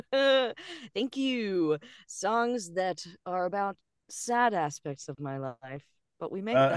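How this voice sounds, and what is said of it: Usual voice. Nothing is said of it.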